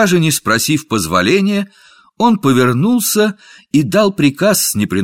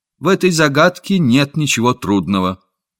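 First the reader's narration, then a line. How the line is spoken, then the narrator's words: Boy calm and firm. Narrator (Russian): Мальчик спокойно и твердо сказал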